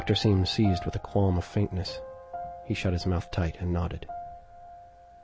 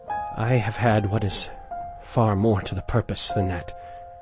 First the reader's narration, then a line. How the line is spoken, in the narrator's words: returned the doctor solemnly